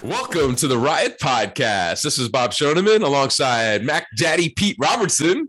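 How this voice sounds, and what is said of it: Hoarse, froggy congested voice. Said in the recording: “It sounds like you got a frog or something ... I'm fighting allergies, and I think I might have a head cold”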